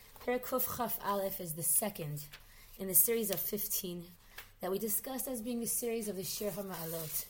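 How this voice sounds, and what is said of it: Hoarse voice. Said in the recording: “I'm apologizing in advance for the hoarseness of my voice”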